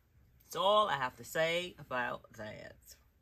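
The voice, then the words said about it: Bad Forrest Gump impression. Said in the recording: “bad Forrest Gump impression”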